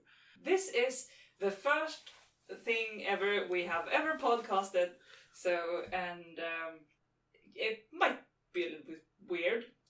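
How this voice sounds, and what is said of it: Strong Swedish accent. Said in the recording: “very Swedish accent”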